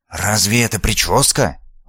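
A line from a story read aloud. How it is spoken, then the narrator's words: Grumbling whisper, nanny. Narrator (Russian): ворчливо шепнула нянька с облака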